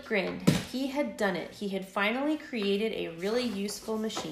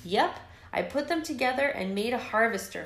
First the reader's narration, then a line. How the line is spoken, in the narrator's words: Flick exclaimed